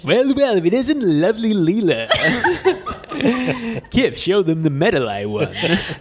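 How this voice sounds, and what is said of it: Cartoon character voice impression. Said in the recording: “that Brannigan impersonation ... your impersonations, but I think they're pretty good”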